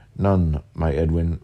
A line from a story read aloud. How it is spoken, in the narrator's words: replied he